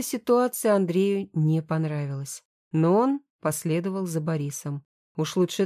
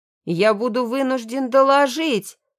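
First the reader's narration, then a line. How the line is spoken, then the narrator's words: Sergeant shouting after. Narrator (Russian): закричал вслед сержант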